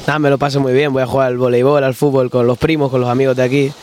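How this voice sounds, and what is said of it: Canarian Spanish accent. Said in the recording (Spanish): “tu acento me encanta, el acento canario mola mucho... qué guay cómo hablas, ¿eh? Bueno, hablas como Quevedo”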